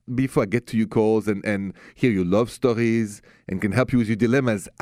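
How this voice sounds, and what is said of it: French accent. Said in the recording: “the accent français, French”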